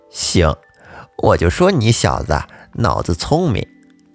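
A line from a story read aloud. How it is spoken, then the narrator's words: Satisfied admiring old woman. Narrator (Chinese): 祖奶奶满意的赞叹说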